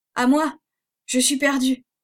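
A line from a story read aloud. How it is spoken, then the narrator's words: Breathless shout. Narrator (French): cria Reb d'une voix haletante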